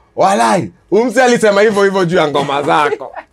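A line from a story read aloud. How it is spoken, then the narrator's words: Laughing. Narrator (Swahili): akaniambia akacheka akaniambia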